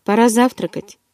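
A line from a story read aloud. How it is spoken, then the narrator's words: Matter-of-fact tone. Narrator (Russian): будничным тоном проговорил Эдвард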